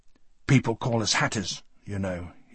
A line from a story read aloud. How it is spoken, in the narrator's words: said bitterly